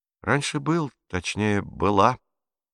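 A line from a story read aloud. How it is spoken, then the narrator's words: Calm reply. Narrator (Russian): спокойно ответила Катарина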